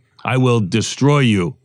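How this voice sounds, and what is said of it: Russian-accented Ivan Drago impression. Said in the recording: “a Russian accent ... what was it from Rocky? Ivan Drago. ... Wasn't he the Russian guy in Rocky?”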